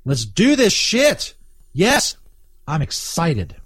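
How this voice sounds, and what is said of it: Fake, forced excited tone. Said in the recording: “sounded fake as hell... the fakeness of my voice just then”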